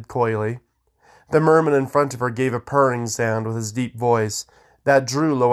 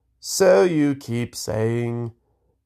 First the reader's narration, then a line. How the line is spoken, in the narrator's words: the Greenscale sighed